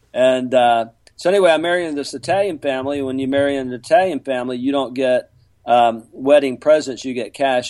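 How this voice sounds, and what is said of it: Southern American accent. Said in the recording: “I'm from Lower Alabama ... I had an accent”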